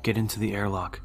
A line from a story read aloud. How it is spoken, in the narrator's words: he said calmly